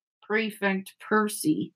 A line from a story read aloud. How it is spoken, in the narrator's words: muttered Fred